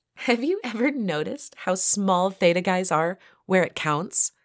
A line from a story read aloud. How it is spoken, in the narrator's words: giggled Elizabeth